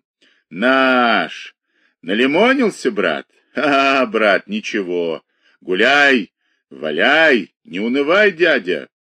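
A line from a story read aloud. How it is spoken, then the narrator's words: Drunken voice. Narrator (Russian): Один из них, высокий и тонкий, сказал пьяным голосом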